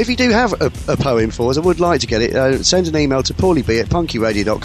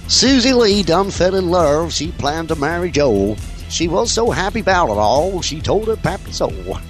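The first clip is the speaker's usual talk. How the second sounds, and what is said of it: Put-on Southern redneck accent. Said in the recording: “my best southern redneck accent”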